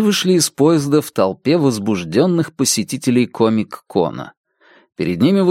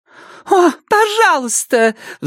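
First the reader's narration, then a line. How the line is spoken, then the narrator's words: Agitated mother's shriek. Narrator (Russian): взвизгнула взволнованная мать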